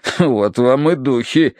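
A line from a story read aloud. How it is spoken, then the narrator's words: Colonel's grunt. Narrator (Russian): хмыкнул полковник Меринг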